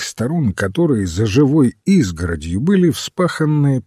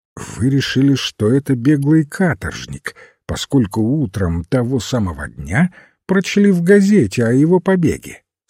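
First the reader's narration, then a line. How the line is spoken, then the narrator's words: Calm. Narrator (Russian): спокойно сказал священник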